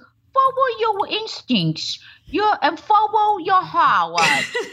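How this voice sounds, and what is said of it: Imitated Boston-like speech impediment. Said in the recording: “she was doing full Pock the Cat, like Boston ... Massachusetts ... I'm not making fun of an impediment or anything. I was like, is that an accent?”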